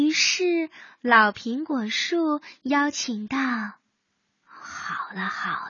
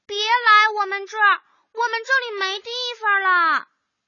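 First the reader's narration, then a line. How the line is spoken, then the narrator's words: Immediate shout. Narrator (Chinese): 大树、小树 立刻喊道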